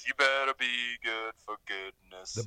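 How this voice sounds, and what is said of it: Deep-voiced singing. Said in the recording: “the deep voice.”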